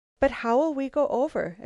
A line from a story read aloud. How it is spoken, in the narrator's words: exclaimed Lucile suddenly